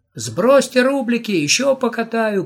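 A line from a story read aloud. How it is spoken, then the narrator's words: Shouted. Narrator (Russian): крикнул он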